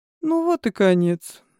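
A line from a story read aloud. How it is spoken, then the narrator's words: Gloomy mutter. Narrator (Russian): мрачно пробормотал советник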